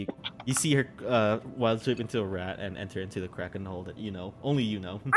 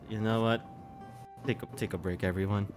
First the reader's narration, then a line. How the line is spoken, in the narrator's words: she kind of like mutters off, and she says